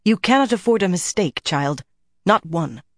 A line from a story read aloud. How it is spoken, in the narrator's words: Carlinia snapped like a cracking icicle